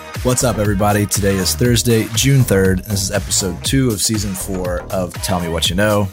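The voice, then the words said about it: Voice sounds sick with a cold. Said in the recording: “I am a little bit under the weather today. You might be able to hear it in my voice... Got a little bit of a cold... just a sore throat”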